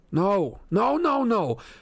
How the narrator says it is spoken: I shouted

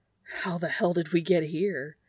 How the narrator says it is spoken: Dean says, gasping

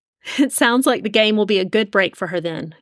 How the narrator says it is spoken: Jamie laughed

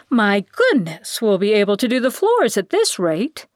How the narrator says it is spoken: Bilby exclaimed

